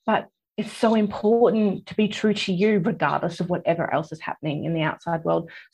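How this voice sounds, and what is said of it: Emotional, near-tearful voice. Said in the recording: “I'm getting a little bit emotional here. I can feel my tears welling up in my eyes right now.”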